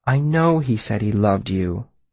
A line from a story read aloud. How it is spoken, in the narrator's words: Denna said, her voice gentle